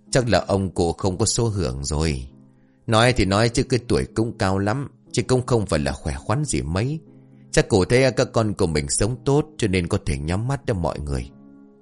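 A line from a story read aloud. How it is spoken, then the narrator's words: Sighing. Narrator (Vietnamese): Một người thở dài rồi nói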